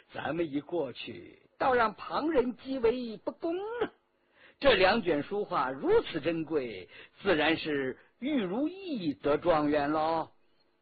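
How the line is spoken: Laughing. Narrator (Chinese): 纪晓岚笑道

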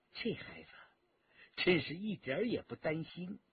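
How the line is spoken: Soft laugh. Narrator (Chinese): 骆冰轻声地笑道

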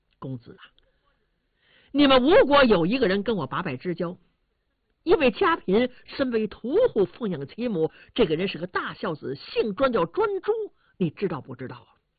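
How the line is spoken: Laughing. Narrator (Chinese): 伍子胥笑了

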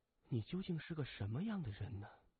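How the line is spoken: Muttering to oneself. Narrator (Chinese): 邱宁水喃喃自语说

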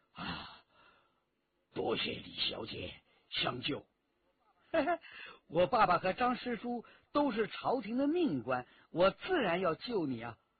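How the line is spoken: Breathless. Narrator (Chinese): 张召仲 喘了一口长气，对李元直说

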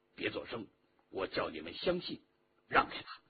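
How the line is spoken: Low voice. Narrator (Chinese): 陆飞清低声地说

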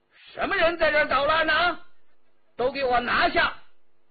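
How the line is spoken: Shouting. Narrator (Chinese): 有人大叫

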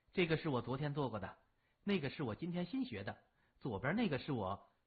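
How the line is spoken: Smiling, pleased. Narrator (Chinese): 高慧玉笑眯眯地

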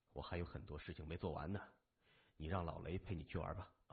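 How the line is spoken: Resigned sigh. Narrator (Chinese): 谢文东无奈的叹息了一声说

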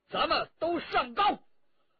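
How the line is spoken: Shouting. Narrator (Chinese): 陈家洛叫道

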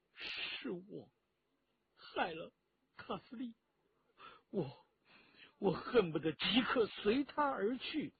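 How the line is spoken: Choked sobbing. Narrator (Chinese): 陈家洛哽咽着

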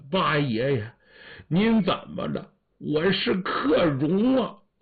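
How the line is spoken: Young man tearfully crying. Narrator (Chinese): 年轻人 含着眼泪哭了

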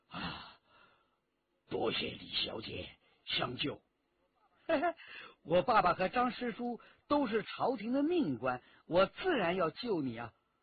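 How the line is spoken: Breathless, panting. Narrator (Chinese): 张召仲喘了一口长气，对李元直说

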